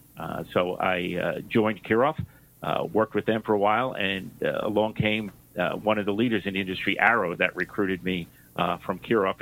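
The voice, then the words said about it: New York accent. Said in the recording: “You may have noticed from my accent, I grew up in New York.”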